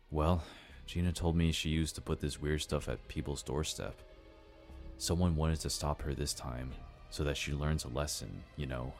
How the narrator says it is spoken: said in a shaken voice

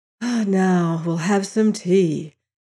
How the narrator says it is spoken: I said with a sigh of relief

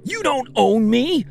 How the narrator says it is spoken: screamed

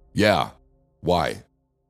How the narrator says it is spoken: the man snapped at me

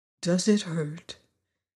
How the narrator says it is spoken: asked the Tin Woodman in a soft, sympathetic voice

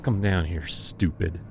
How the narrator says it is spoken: Jonas muttered, smacking his lips

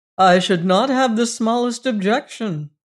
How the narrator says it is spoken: I exclaimed frankly

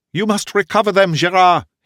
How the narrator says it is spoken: he cried

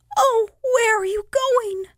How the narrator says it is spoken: Cried the yellow dahlias, racked with sobs

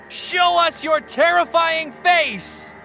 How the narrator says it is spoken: Then Charles shouted

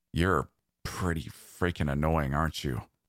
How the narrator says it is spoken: Kale rasped out

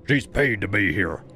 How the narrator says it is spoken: the tallest one barked

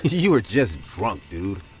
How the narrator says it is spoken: He laughed and said

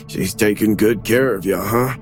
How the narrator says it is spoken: Phil said to Patty in a joking tone

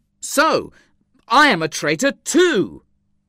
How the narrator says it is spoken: I exclaimed angrily

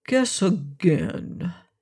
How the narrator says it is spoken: purred

